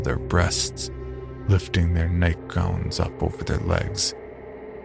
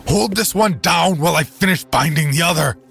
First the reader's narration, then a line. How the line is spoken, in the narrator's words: he shouted